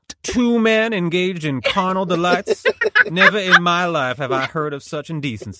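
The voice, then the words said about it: Put-on Southern accent, old-fashioned voice. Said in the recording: “What is this Southern accent ... That is a pitch-perfect impression of Justice Byron White.”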